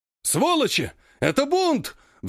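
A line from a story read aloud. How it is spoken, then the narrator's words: Shrill squeal. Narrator (Russian): взвизгивает один из трех оставшихся байкеров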